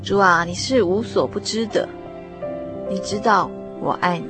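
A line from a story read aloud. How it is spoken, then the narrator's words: Slow, troubled, perplexed. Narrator (Chinese): 彼得沉静下来，开始发愁，一脸迷惘，慢吞吞地说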